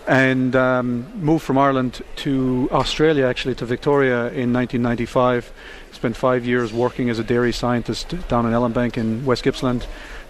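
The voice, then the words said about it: Irish accent, not New Zealand. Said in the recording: “As you can tell from my accent, I'm not a Kiwi.”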